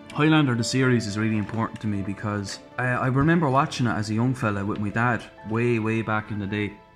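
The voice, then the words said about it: Irish accent. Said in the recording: “I don't know if the accent gave it away, lads, but I'm from Ireland.”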